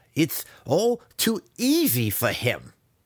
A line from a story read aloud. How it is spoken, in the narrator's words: he snarled